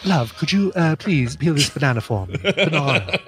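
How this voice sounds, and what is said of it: Put-on British accent. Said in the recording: “does a British accent ... And it still wasn't a New Zealand accent.”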